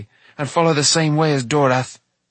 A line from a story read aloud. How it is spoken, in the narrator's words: Taran replied bitterly